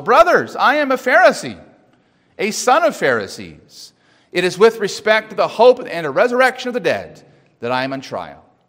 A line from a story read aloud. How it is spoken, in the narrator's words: cried out